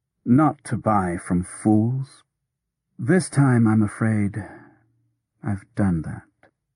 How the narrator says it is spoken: said wearily

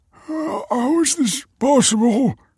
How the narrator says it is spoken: He croaked

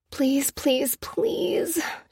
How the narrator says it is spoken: she muttered

